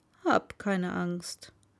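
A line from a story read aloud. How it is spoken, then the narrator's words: Plain. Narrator (German): sagte er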